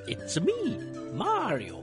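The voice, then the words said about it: Poor Mario character voice impression. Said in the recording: “Sorry for the terrible impression, by the way, Charles Martinet.”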